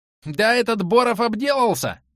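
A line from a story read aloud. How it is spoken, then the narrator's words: Shrill shout from below. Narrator (Russian): визгливо прокричали снизу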